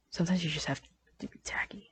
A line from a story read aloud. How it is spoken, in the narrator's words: After a sheer moment of sheer suspense, she finally muttered